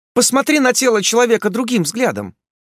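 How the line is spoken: Rapid chatter. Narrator (Russian): затараторила Варна

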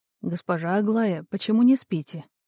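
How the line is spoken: Quiet voice from aside. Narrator (Russian): тихо раздалось сбоку

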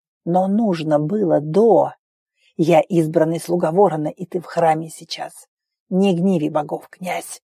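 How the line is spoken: Hoarse rasp. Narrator (Russian): Прохрипел Йохве

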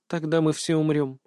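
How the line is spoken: Quiet. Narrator (Russian): тихо закончила Аня

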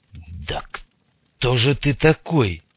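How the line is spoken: Hoarse question. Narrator (Russian): спросил Мун, поймал себя на том, что голос звучит сипло

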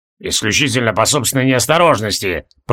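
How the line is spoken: Through gritted teeth. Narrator (Russian): процедил Регелион

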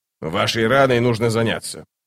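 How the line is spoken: Grumbling. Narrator (Russian): проворчал он

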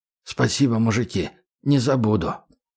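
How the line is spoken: Quiet. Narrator (Russian): так же тихо сказал

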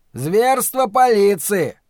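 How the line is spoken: Bold shout. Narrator (Russian): крикнул какой-то смельчак

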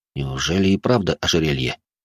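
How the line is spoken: Grumbled under breath. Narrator (Russian): буркнул я себе под нос

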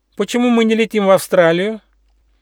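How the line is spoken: Loud question, little hedgehog. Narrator (Russian): ежонок Почемучка громко спросил

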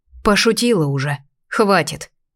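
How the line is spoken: Grumbled. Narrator (Russian): буркнула я

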